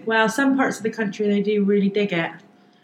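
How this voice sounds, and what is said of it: Bristol accent. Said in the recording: “the Bristol accent ... the accent is terrible. ... I love your accent.”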